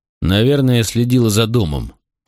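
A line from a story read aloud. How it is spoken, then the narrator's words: Grumbling mutter. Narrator (Russian): пробурчал я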